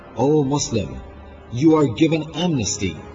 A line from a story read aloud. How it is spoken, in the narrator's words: Aliyas, Muhammad ibn Ash'af cried